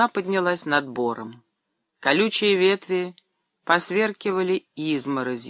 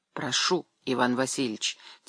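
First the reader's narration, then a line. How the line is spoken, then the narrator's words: Quiet. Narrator (Russian): тихо произнес человек в свитере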